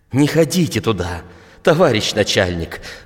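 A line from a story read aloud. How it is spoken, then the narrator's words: Pleading. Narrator (Russian): взмолился Горбаленя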